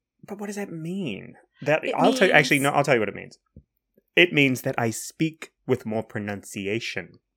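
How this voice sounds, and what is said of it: North American-sounding accent. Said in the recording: “You're still quite North American, though, to be fair.”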